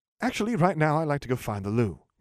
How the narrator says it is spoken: he said brightly

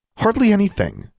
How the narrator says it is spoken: she blurted out, more forcefully than she meant to

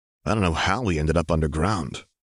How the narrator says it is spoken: murmured Othniel

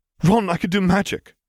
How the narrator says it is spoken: gasped Hermione

